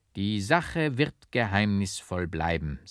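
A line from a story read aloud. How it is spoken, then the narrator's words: Plain. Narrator (German): sagte der Fürst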